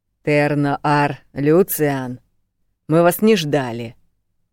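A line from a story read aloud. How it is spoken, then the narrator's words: Growling woman. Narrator (Russian): прорычала она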